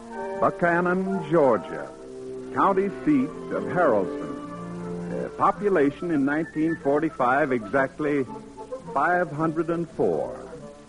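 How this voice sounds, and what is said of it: Southern American accent. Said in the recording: “Pardon my southern accent.”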